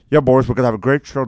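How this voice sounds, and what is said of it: Poor imitation of a TV host. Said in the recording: “I can't do Ed Sullivan. I'm really sorry. ... That's terrible. Sorry.”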